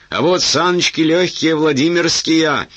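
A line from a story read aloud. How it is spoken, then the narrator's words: Yelled falsetto. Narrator (Russian): заорал статный советник фальцетом, не имевшим ничего общего с обыкновенным его голосом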